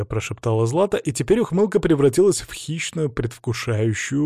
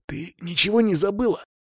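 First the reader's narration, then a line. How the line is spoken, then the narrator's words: Angry whisper. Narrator (Russian): гневным шепотом ответил я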